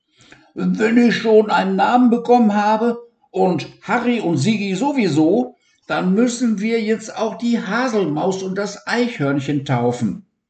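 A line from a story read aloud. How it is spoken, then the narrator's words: Loud laughing demand. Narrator (German): lachte Lancelot laut auf und forderte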